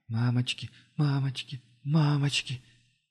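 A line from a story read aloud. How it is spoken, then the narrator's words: Barely audible repetition. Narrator (Russian): еле слышно повторяла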